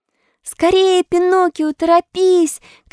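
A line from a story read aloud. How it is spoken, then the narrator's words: Shouting goat. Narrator (Russian): кричала хорошенькая козочка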